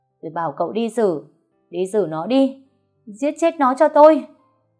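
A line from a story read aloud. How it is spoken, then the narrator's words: Screaming. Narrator (Vietnamese): Tôi nghe xong gào lên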